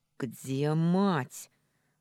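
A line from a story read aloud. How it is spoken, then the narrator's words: Growling. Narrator (Russian): Уже не говорила, а рычала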